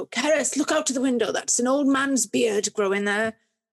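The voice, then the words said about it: Imitated Swansea accent. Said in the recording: “not with an English accent, but with a Swansea accent.”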